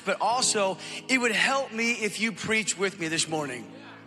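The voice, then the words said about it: Strained, failing voice. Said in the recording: “you can tell that I'm about to lose my voice this morning”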